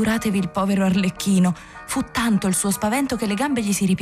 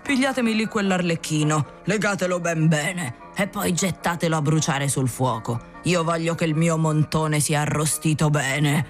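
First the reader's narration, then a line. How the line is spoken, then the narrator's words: Wheezing, rattling voice. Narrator (Italian): il burattinaio disse loro con voce rantolosa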